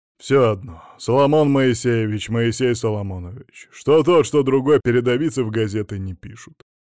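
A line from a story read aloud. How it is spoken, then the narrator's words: Grumbling. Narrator (Russian): пробурчал Мамонов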